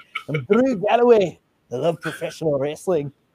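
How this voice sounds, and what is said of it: Put-on Scottish accent. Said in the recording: “a Scottish accent”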